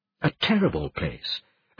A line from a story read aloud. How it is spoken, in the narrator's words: Anastasia Rigel murmured coolly